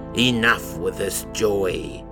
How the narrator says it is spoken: he spat and screamed

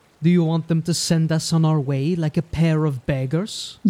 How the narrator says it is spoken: Jens said, keeping his voice low

